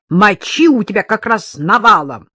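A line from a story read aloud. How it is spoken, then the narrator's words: Nurse, spiteful punning. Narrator (Russian): зло каламбурила медсестра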